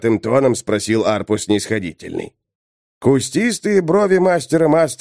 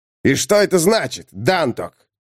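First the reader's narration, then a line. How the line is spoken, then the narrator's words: Shout. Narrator (Russian): крикнул Арпо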